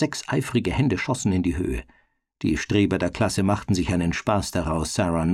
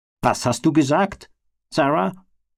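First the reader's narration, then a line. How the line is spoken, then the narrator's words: Barked by teacher. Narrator (German): bellte der Lehrer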